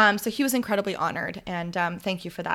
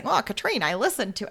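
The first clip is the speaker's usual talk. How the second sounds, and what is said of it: Exaggerated Midwest accent. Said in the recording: “in like his big big Midwest accent.”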